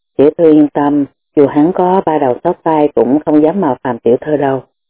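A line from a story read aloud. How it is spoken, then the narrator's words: Smiling reassurance. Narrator (Vietnamese): Đàm Cối mỉm cười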